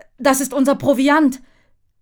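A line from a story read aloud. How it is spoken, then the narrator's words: Father calling out. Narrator (German): ruft Vater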